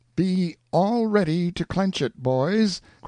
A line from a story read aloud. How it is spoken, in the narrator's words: cried out Pathfinder